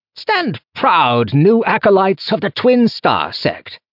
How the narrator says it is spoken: Ethan cried

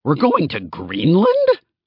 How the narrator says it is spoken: I sputtered

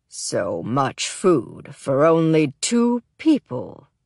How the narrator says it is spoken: the man says, his voice unusually deep, as though he's trying to mask its true timber

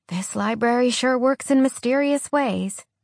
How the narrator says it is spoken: Alex dumbstruck, before she managed to mutter

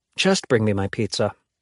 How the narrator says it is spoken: she says with a sigh

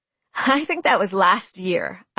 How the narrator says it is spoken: I laughed

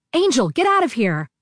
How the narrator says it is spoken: I yelled

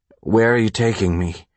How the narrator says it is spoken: His words slurred, felt heavy and awkward falling out of his mouth

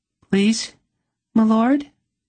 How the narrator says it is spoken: A little girl with huge eyes begged

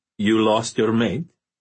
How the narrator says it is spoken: said Libor in an amused voice

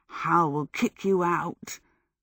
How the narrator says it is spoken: Michael muttered

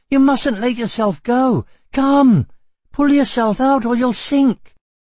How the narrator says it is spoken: cried Atreyu

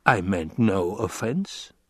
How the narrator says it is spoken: the banker muttered

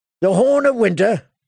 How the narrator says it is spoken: Sir Alistair chuckled

